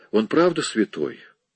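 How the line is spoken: Tired. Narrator (Russian): Он устало проговорил

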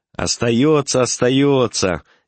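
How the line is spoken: Cheerful shout. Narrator (Russian): весело закричал доктор

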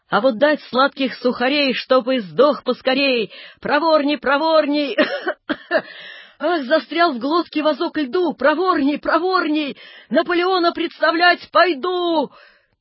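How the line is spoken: Hoarse shouting. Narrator (Russian): бывший Наполеон кричал сиплым голосом

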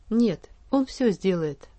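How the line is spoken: Calm, smiling. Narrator (Russian): спокойно ответил он, продолжая улыбаться

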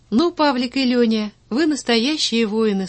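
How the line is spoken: Plain. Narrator (Russian): сказала она

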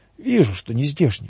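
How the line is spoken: Smiling, then sighing. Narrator (Russian): улыбнулся отец Василий и вздохнул

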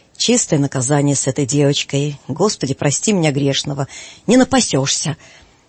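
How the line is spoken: Angry spitting priest. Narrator (Russian): отец Сисой вдруг плюнул и проговорил сердито

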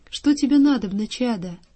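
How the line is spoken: Gentle old man's question. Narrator (Russian): старец ласково ... спросил

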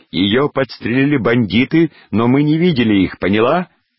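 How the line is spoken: Shout. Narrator (Russian): Поль крикнул

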